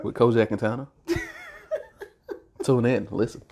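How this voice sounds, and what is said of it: Radio announcer voice. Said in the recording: “That was my radio voice.”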